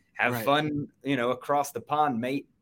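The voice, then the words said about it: Rough British accent, sounding Australian. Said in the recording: “On the fly British one ... it sounded a little bit more Australian than British”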